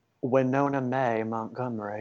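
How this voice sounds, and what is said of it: Southern American accent. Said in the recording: “Could you say that with your southern accent? ... I think I need more in the Winona.”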